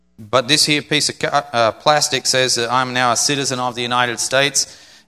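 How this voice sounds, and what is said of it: Non-American accent. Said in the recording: “it says my nationality is USA. My accent doesn't say that”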